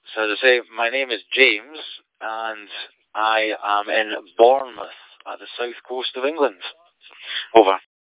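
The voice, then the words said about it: Scottish Borders accent. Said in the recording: “your Scottish accent, and it sounded like the Borders”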